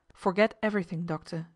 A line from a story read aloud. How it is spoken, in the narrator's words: he said